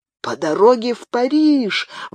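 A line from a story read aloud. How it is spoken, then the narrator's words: Exclaiming. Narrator (Russian): воскликнул Мартен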